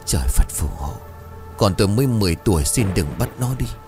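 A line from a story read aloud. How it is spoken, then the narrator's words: Panicked, tearful praying mutter. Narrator (Vietnamese): Đôi mắt đỏ hoe vì khóc quá nhiều, hoảng loạn lẩm bẩm khấn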